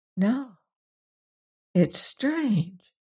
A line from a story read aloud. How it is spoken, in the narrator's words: breathed Mrs